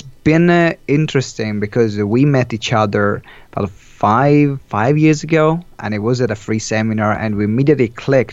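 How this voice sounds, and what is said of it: Strong Italian accent. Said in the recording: “What is that accent? ... This very strong accent is an Italian accent.”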